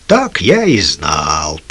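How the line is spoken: Grumbled. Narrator (Russian): проворчал Лукас

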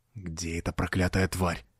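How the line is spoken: Muttered. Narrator (Russian): пробормотал Годфри

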